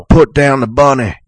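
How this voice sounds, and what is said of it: Nicolas Cage's bad Southern accent. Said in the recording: “Nicolas Cage ... Like Con Air. That is the worst Southern accent I've ever heard ... he sounds like GW.”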